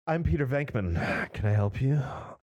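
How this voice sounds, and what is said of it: Sexy voice. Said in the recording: “sexy voice”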